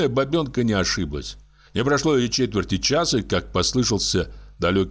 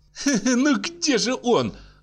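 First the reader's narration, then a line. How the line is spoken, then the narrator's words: Nervous laughing. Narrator (Russian): заговорила она, нервно смеясь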